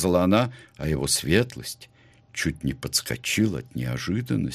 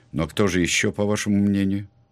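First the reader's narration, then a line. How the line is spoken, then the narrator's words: Weary question. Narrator (Russian): Блад задал свой вопрос устало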